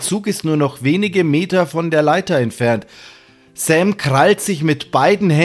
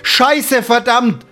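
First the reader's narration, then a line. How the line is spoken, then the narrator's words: Strained shout. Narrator (German): ruft Sam, der sich mit letzter Kraft am Geländer festhält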